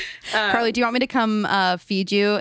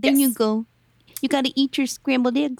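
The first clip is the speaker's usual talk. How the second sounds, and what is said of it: Put-on Lila character voice. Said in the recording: “in my Lila voice”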